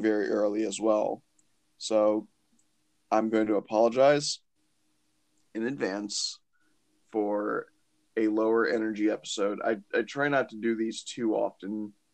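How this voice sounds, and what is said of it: Tired, low vibrating voice. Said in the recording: “whenever I get tired, my voice gets very uh, low and vibraty”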